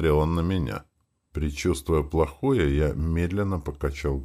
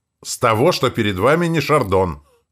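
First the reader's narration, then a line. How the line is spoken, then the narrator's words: Sharp shout. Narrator (Russian): выкрикнул я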